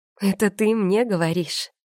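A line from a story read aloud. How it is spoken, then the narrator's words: Laughing out loud. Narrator (Russian): расхохоталась я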